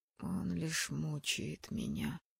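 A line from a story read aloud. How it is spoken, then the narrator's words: Barely audible complaint. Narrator (Russian): чуть слышно пожаловался Азиэль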